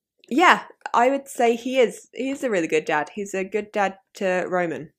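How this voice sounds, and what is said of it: Common southeast English accent, monotonous tone. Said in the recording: “I really love your accent because, you know, for me as a German, it's so nice and lovely to hear something else... I think the tone of my voice is very monotonous... I think it's very boring... I think my accent is very, very common... I end up just going London because it's easier. But I'm like more southeast than that.”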